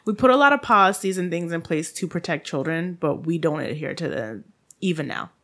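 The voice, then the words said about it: Haitian accent. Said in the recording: “this Haitian accent.”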